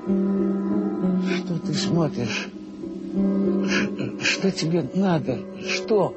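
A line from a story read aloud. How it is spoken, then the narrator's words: Whisper. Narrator (Russian): он мне что-то шептал, тот человек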